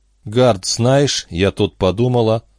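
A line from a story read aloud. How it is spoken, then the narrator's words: Began in an even voice. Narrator (Russian): ровным голосом начала Бобби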